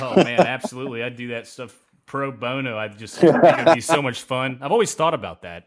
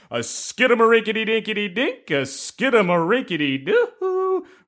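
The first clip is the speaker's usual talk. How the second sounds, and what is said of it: Animated cartoon voice. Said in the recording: “It's a bit animated itself, right? ... That's a great cartoon voice.”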